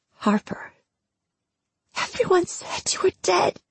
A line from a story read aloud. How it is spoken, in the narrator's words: she whispered, her voice thick with tears